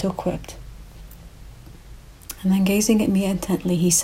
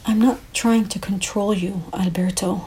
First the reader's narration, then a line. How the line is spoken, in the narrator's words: I replied